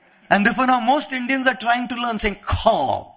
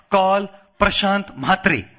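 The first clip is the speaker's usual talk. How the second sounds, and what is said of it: Imitated Indian accent. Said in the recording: “speaking in his Indian accent”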